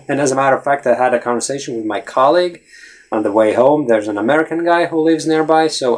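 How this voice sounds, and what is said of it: Latvian-accented English, non-native speaker. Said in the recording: “I'm from Latvia ... you might have guessed that I'm from the Eastern Europe ... I find your accent is a bit difficult to get ... I'm an English learner ... maybe I am speaking in a very difficult to get accent”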